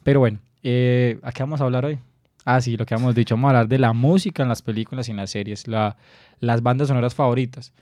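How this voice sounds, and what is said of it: Hoarse, rough voice. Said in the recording (Spanish): “yo también soy un poco, un poco enfermo, pero bueno, eso nos da voz, voz de locutor porque nos faltaba un poquito eso, una voz más ronca”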